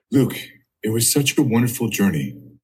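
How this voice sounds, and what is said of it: Imitates another person's voice. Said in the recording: “do the Michael Barbaro voice?”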